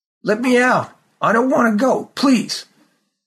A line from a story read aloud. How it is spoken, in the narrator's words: he cried